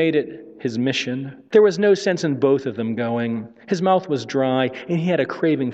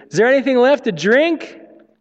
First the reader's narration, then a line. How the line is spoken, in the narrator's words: shouted in his ear